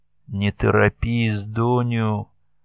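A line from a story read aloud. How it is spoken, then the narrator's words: Gentle, affectionate. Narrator (Russian): ласково сказала ей Алена Панкратьевна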